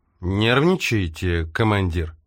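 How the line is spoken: Sarcastic question. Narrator (Russian): язвительно поинтересовался он у Карпентера

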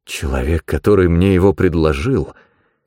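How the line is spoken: Hoarse voice. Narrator (Russian): хрипло произнес Чилден

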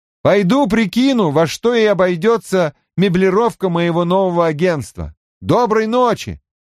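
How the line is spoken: Shouting downward. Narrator (Russian): прокричал вниз

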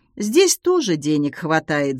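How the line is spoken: Thoughtful remark. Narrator (Russian): задумчиво заметила она

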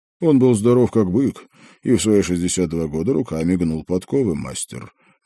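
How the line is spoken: Gloomy objection. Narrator (Russian): мрачно возразил Номан

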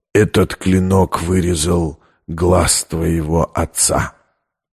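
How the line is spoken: Hot close whisper. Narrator (Russian): обжигая ее дыханием, прошептал

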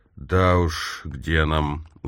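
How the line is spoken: Tired smiling. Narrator (Russian): устало улыбнулся Торренс Смис

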